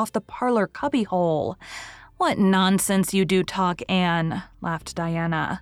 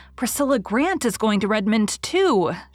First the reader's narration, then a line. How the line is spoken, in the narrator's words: she exclaimed